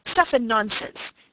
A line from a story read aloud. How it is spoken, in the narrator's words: he exclaimed angrily